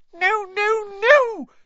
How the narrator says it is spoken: squeaked Dobby

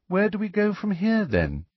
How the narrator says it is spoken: she asked Harry, in a politely interested voice, as though this was all a rather interesting day-trip

